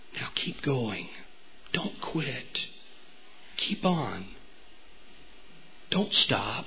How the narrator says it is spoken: the master who leans over and whispers

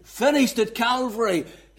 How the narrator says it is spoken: Christ shouted

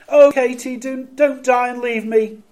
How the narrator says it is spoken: When Katie became ill, he cried

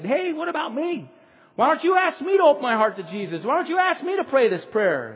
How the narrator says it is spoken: Mauricio all of a sudden yelled out and said

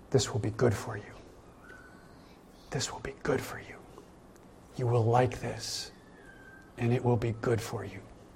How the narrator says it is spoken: Sneaking, slithering snake tells its lies, whispering in our ear

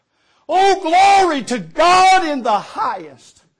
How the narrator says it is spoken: he shouted out

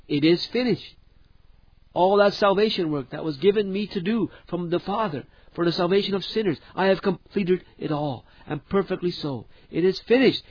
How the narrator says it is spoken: With what a loud and triumphant voice Jesus cried out

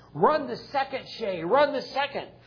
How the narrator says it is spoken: Everybody yelled

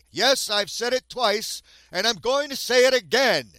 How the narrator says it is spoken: Newton said loudly

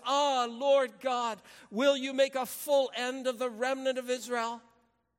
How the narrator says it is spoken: cried out with a loud voice and said

